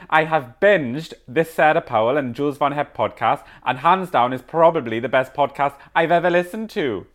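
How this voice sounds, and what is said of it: Put-on Welsh accent. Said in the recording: “Let me get into the Welsh accent.”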